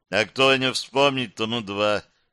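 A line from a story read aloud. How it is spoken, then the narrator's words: Quick retort. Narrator (Russian): парировал Андрей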